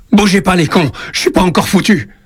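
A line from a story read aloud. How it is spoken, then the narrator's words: Enraged shout. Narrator (French): Il crie sa rage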